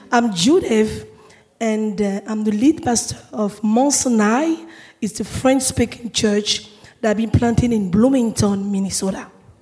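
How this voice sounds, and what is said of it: Voice mostly gone, hoarse. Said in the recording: “I lost my voice, but I'm gonna make sure that you guys can understand me today.”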